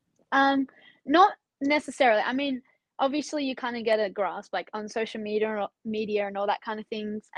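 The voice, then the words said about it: Slight Australian accent. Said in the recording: “You two do have a little bit of an accent”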